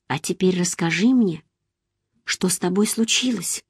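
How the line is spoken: Quiet, fearful request. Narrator (Russian): сделав над собой усилие, хотя сердце мое сжималось от страха, тихо попросила

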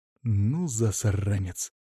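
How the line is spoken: Growling. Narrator (Russian): прорычал я

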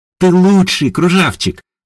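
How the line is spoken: Joyful, nearly squealing. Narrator (Russian): радостно заулыбалась ягушка, разве что не визжа от радости

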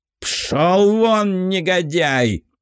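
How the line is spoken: Roared. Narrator (Russian): взревел князь

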